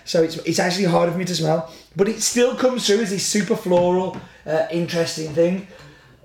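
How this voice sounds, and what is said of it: Slightly congested voice. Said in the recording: “I have got a little bit of a cold, as you may hear”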